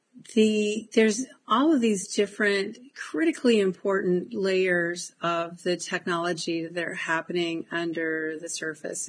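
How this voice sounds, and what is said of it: Voice rough from a cold. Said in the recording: “my voice is not very good from a cold”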